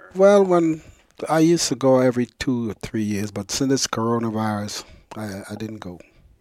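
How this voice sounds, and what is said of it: Slight Virgin Islands accent. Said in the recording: “You still have a little bit of the accent.”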